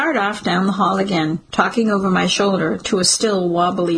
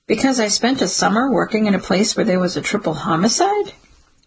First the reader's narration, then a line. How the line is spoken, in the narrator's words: Detective Vic chuckles, as if he finds the idea preposterous